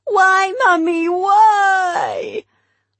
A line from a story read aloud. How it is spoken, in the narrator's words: Alfie received it more like a spiteful punishment, wriggling and grimacing and wailing